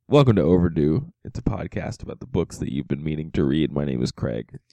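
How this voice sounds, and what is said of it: Sick, congested-sounding voice. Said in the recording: “apologize for my voice ... because I am currently laden with some sort of cold”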